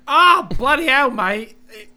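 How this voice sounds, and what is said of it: Exaggerated put-on Australian accent. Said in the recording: “she had like that Australian accent ... now she's like”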